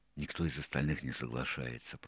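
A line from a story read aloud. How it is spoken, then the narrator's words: Whispered. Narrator (Russian): прошептал Израил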